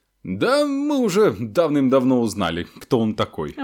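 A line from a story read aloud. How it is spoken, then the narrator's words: Pompous voice. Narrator (Russian): важным голосом произнес Рон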